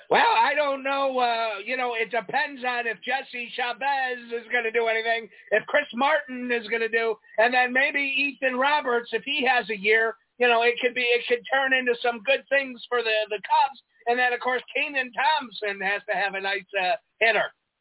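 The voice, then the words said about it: Imitates another person's voice. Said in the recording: “here's my impersonation of you talking about the Cubs”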